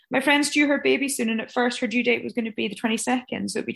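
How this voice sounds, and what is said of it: Distinctive regional accent. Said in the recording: “your amazing accent as well. I just love ... accent.”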